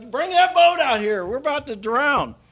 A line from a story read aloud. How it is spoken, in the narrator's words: he's yelling, calling for the other